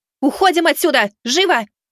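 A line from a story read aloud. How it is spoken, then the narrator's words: Shouted while running up. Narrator (Russian): выкрикнула Миваки, подбегая к ним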